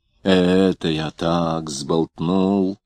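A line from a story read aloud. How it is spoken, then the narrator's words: Muttering. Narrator (Russian): забормотал он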